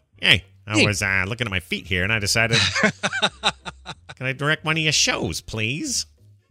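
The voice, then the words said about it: Imitates another person's voice. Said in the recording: “That's a terrible impression. ... Pretty close, actually.”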